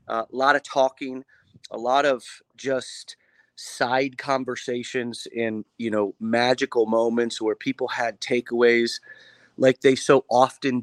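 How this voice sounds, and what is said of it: Partly lost, strained voice. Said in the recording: “you can hear my voices a little bit ... lost my voice a little bit”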